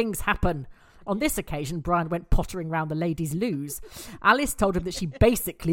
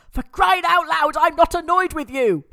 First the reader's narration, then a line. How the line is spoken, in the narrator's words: shouted Neil, annoyed